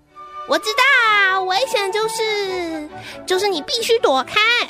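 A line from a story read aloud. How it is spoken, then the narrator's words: Sudden, happy and loud. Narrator (Chinese): 突然，高兴地大声地说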